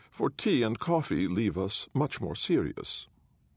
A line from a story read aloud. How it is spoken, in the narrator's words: he says sadly